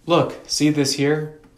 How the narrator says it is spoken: Mordecai said

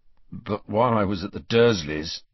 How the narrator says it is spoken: interrupted Harry, his voice growing stronger

